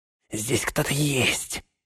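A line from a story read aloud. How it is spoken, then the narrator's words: Whispered. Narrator (Russian): шепнул он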